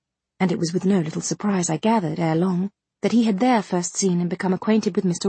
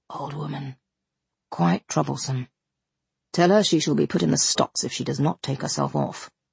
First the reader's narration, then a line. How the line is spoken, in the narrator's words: replied the magistrate